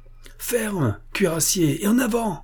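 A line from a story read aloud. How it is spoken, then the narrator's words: Exclaiming. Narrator (French): s'écrie-t-il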